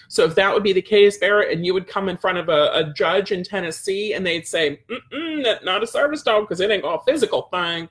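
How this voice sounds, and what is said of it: Tennessee Southern accent. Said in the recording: “It's my Tennessee accent”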